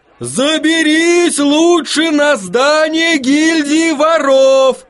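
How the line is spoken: Man shouting. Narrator (Russian): кричал один мужчина

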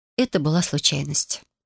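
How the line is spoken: Calm. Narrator (Russian): спокойно ответила я

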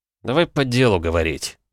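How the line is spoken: Sighing. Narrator (Russian): вздохнул я

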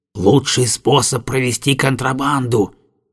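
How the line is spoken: Whisper. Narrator (Russian): шепнул Пантен

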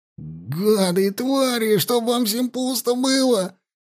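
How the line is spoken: Furious yelling. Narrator (Russian): орал егерь

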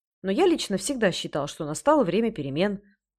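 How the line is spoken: Quick speech. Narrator (Russian): быстро произнес Тез

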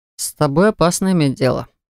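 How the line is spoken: Muttering demon. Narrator (Russian): пробормотал демон

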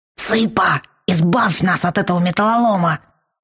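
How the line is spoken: Hissing whisper. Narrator (Russian): свистящим шепотом попросил Вал

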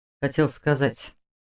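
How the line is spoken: Quiet, hesitant start. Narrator (Russian): тихо начал он

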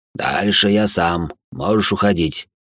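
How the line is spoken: Creaky voice. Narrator (Russian): проскрипел он

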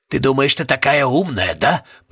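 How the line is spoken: Growling. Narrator (Russian): прорычал мистер Пуст

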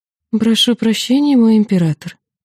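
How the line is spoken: Honeyed apology. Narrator (Russian): медовым тоном извинилась я

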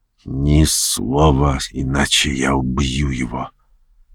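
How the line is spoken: Man whispering. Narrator (Russian): граф прошептал

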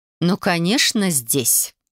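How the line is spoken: Icy tone. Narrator (Russian): ледяным тоном ответила женщина

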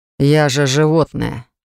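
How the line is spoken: Irritated, curt. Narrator (Russian): раздраженно бросил Лайт

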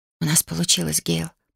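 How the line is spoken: Whisper. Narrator (Russian): прошептала я

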